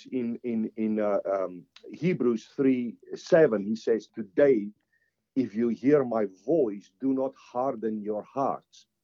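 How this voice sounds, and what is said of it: Non-native accented English. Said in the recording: “my accent sometimes... the people thought I was talking about a lamp... But it's actually the lamb”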